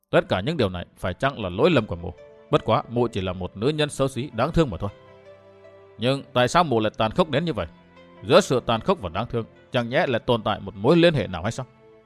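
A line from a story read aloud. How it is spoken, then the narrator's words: Muttering to himself. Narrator (Vietnamese): Ông lẩm bẩm nói một mình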